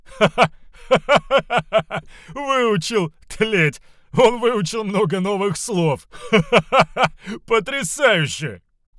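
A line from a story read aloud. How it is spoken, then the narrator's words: Loud laughter. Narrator (Russian): Самый недовольный член отряда расхохотался во весь голос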